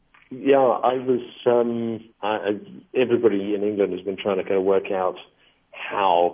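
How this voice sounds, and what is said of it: English accent. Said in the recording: “I'm guessing from your accent that you are an English national.”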